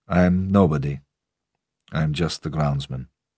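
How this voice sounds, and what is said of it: Mixed Eastern European, West Country accent. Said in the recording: “A strange accent that contained both Eastern Europe and the West Country ... The accent was Russian. Maybe.”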